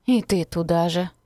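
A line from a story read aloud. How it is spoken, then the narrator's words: Sighing. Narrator (Russian): вздохнула Софья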